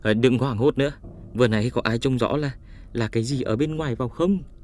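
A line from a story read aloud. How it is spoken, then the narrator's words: Panting question. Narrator (Vietnamese): Đình Tư Điểm thở hổn hển hỏi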